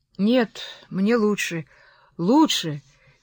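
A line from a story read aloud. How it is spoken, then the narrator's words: Strained, trembling speech. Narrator (Russian): через силу выговорил Линтон, дрожа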